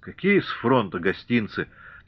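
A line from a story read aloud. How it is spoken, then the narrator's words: Melancholy sigh. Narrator (Russian): тоскливо вздохнул Григорий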